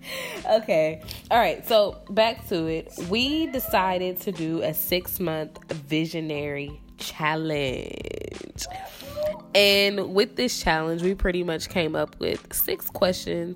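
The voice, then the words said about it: Sick, congested voice. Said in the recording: “I am sick as a dog. I don't know if y'all can hear it in my voice ... My nose is dripping”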